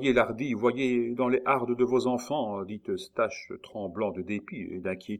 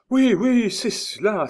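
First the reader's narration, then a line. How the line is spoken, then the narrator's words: Triumphant exclamation. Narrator (French): s'écria Eustache triomphant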